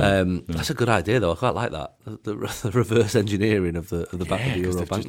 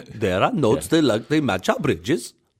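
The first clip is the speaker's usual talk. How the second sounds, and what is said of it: Attempted Dutch accent, sounds Welsh. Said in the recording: “is that their accent? ... I think that was Welsh, wasn't it? ... the Dutch isn't one of the easiest accents to do”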